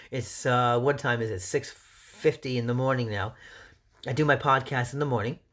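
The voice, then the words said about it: Cracking early-morning voice. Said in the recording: “My voice is cracking.”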